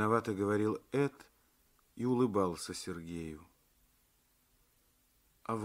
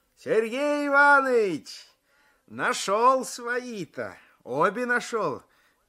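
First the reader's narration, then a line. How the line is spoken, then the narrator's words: Shouting. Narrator (Russian): кричал Алексеев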